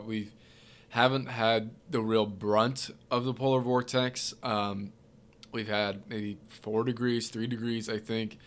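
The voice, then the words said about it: Congested, stuffed-up nasal voice. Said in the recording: “pardon my voice right now a little bit here. My nose is all stuffed up.”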